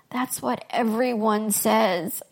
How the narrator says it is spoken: moaned

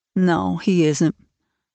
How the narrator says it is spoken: said Marilla in a troubled tone

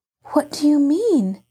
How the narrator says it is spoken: Nancy inquired anxiously

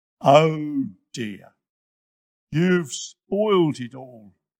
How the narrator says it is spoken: grumbled

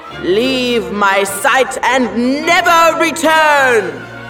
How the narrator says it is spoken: he bellowed

